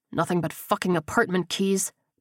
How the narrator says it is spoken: Becker grunted

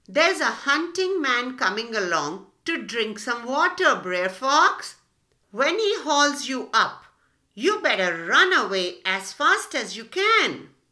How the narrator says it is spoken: shouted down to Br'er Fox

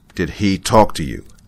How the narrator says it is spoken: he demanded angrily

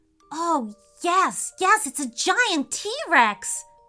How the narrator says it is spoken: he cried

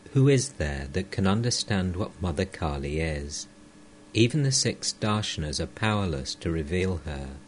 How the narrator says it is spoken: He sang softly

